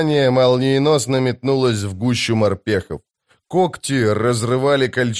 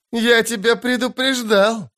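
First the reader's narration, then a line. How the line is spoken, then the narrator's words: Loud laughter. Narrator (Russian): расхохотался казначей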